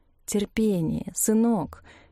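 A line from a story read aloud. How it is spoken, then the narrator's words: Silent mental plea. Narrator (Russian): мысленно взмолился Клавдий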